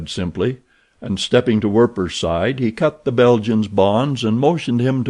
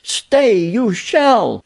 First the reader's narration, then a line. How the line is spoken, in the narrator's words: she screamed